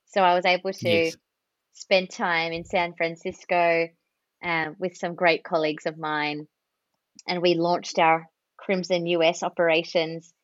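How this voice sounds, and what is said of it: Australian accent. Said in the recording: “my accent is an Australian one and pretty hard to understand sometimes”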